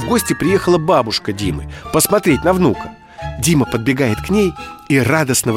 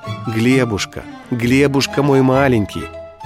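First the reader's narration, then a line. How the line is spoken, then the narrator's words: Mother's tender repetition. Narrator (Russian): Мама, когда кормила или укладывала спать малыша, все время ласково повторяла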